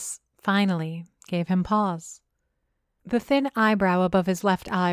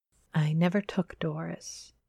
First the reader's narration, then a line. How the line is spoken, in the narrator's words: he murmured, almost too softly for me to hear